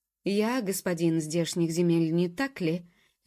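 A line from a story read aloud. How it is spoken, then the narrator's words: Cold, ringing tone. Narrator (Russian): звенящий холодным тоном осведомился Ноа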